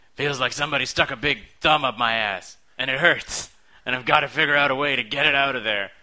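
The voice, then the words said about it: Impersonates a film character's line. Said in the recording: “I'm going to try to do impersonations of all of these... from Samurai Cop”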